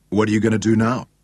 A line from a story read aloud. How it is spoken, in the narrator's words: David asked him